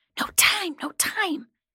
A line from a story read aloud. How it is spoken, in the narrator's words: The voices hissed